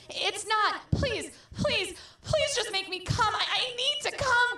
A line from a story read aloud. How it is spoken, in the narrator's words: screamed Stanley